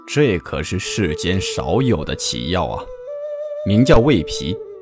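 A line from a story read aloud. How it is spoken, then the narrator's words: Admiring praise. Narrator (Chinese): 掌柜的连连赞叹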